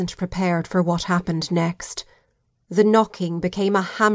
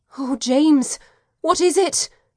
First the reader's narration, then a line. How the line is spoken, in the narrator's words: asked, my voice shaking